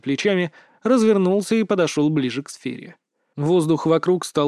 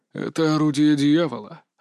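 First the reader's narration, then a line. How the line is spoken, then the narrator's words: Breathed out. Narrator (Russian): выдохнул он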